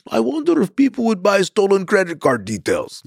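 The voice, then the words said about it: Put-on Ukrainian-Russian accent. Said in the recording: “That's pretty good Ukrainian-Russian accent.”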